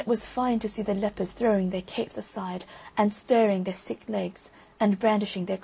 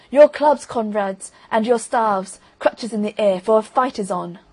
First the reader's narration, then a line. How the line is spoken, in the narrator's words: Ivan shouted